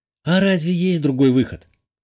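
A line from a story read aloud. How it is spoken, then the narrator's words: Sad sigh. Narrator (Russian): печально вздохнула брюнеточка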